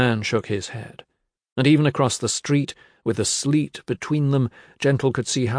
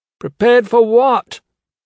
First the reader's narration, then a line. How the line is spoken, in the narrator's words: he shouted